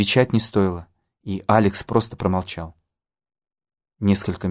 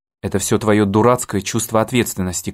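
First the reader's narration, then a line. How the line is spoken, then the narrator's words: Tearful shout. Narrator (Russian): крикнула Ким, на миг поднимая заплаканное лицо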